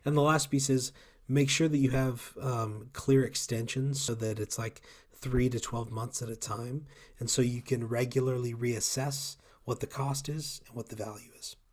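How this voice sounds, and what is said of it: Hoarse, failing voice. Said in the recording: “Sorry, my voice is going out. ... So I may be losing my voice.”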